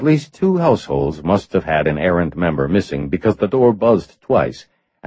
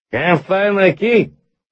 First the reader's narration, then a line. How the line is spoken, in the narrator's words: said in a loud, slurred voice